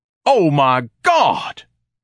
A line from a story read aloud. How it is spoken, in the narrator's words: Ignatius thundered